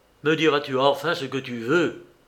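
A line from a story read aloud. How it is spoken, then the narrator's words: Grumbling. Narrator (French): grommela Danglade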